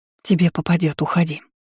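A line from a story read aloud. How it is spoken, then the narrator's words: Whisper. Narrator (Russian): прошептала графиня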